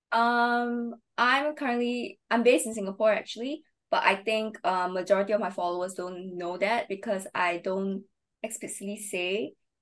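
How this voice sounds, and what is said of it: Singaporean accent. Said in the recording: “you do have the Singaporean accent”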